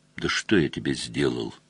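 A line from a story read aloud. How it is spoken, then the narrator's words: Quiet. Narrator (Russian): тихо спросил Мазур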